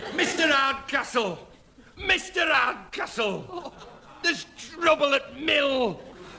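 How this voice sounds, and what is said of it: Put-on Yorkshire accent. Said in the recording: “It's the only thing I can do in a Yorkshire accent.”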